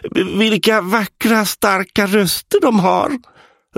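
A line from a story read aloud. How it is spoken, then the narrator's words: Shouted over roaring twins. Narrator (Swedish): ropade för att överrösta tvillingarnas vrål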